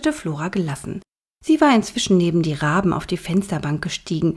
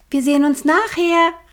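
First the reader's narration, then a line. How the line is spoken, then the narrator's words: Calling out. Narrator (German): rief sie den beiden Vögeln zu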